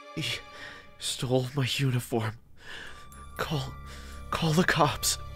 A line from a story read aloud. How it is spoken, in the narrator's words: The man said in a painful, sobbing voice